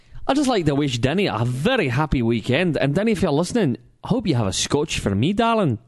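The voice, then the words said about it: Put-on Scottish accent. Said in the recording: “I'm going to do a Scottish accent because my Scottish accent sends this young lady weak at the earlobes ... he did the Scottish accent”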